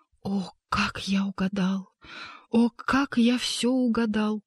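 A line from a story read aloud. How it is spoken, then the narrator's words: Ecstatic whisper. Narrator (Russian): гость прошептал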